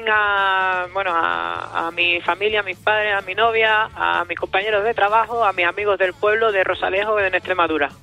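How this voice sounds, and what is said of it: Pleasant Extremaduran Spanish accent. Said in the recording (Spanish): “extremeño con ese acento tan bonito que tienes”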